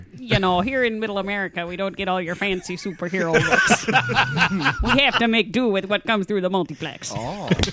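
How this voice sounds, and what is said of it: Put-on Wisconsin accent. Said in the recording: “speak with more of a Wisconsin accent? ... that's amazing.”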